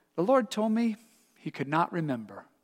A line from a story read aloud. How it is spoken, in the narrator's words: replied gently